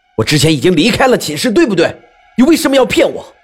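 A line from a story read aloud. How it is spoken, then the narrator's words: Angry roar. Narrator (Chinese): 我愤怒的咆哮道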